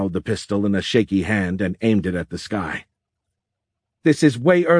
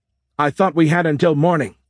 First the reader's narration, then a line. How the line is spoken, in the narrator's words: Ruckley shouted